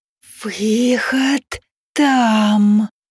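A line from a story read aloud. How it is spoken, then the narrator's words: Sly hissing snakes. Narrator (Russian): Хитро улыбаясь, прошипели змеи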